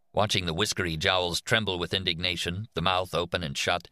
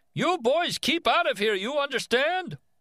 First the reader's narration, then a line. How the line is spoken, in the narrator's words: turned red in the face, shouted